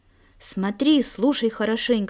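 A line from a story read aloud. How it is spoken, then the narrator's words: Plain. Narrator (Russian): сказал Никита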